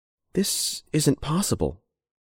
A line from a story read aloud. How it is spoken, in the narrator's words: said Rebecca quietly